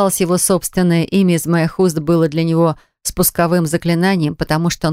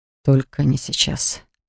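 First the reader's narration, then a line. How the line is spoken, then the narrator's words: Mutter. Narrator (Russian): пробормотал Дан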